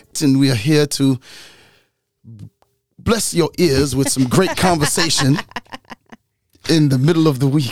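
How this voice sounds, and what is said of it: Smooth radio host voice. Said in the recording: “You sound like you tried to get to your radio voice. ... smooth sound.”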